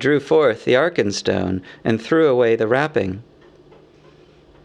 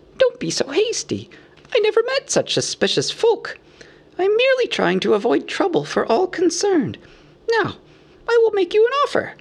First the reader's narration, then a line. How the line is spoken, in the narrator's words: squeaked Bilbo